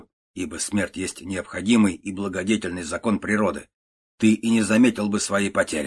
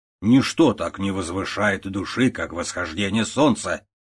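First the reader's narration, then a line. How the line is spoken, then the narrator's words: Plain. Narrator (Russian): говорит Томпсон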